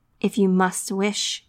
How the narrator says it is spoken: he said gruffly

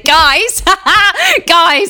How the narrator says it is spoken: shout

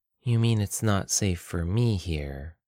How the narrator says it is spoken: Aya sighed

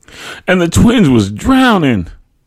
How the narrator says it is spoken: my mother exclaimed

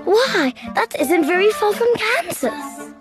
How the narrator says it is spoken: cried Dorothy

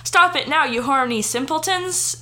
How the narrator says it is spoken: shouted Professor McGoggle

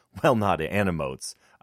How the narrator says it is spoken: I added

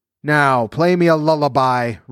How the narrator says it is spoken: roared the giant

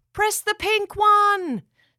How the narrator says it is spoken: The elves yelled up

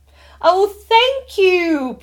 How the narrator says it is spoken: Priya chirped

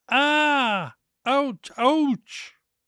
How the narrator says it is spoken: howled with pain

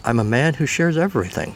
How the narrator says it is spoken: Stetson said

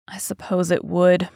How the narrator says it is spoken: muttered the lad, looking horribly pale

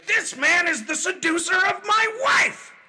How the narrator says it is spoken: he shouted

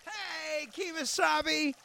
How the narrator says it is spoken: He yelled

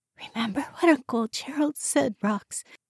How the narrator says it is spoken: she whispered

